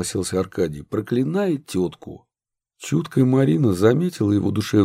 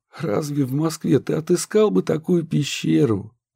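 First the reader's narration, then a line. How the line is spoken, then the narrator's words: Laughing. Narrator (Russian): рассмеялась Марина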